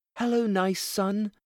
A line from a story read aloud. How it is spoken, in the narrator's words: cried Thumbelina